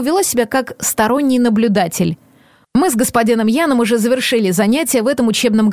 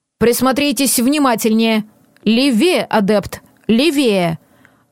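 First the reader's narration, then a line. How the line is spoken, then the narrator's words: Stern. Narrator (Russian): строго произнесла леди Нора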